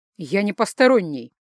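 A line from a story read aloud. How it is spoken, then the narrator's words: Sharp, husband. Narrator (Russian): резко сказал муж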